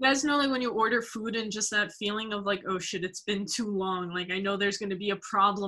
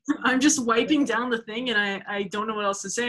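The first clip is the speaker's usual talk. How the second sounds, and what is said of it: Put-on Staten Island accent. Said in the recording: “you do a great Staten Island accent ... Staten Island accent is the best. The best accent.”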